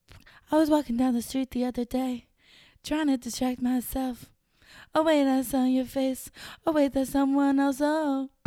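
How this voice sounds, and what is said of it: Sung imitation of another singer's voice. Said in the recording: “That was like the best impression I've ever done in my life.”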